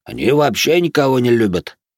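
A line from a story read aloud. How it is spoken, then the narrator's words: Grumbling, man. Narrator (Russian): проворчал какой-то мужик из внешнего кольца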